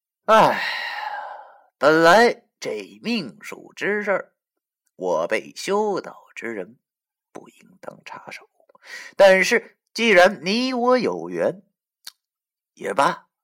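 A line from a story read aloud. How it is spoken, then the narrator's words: Sighing, loud clear voice. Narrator (Chinese): 叹了口气，朗声说道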